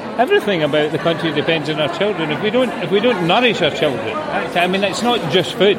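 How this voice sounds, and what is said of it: Scottish accent. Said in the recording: “as you can tell from my accent, I'm from Scotland”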